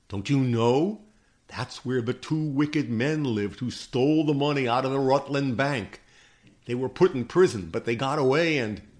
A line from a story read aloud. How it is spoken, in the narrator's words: cried one, a boy